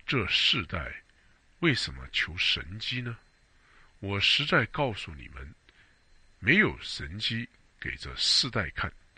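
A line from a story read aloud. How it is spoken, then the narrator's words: Deep sigh. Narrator (Chinese): 耶稣心里深深的叹息说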